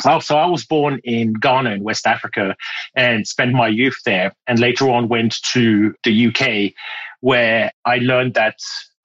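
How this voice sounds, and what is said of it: Mixed British and French accent. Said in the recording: “I'm hearing like British, I'm hearing French. There's other things there.”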